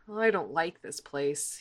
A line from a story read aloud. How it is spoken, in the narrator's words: he mutters